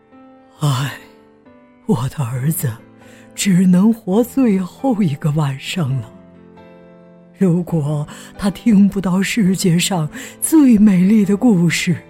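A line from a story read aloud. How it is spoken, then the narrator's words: Sighing king. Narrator (Chinese): 国王叹息说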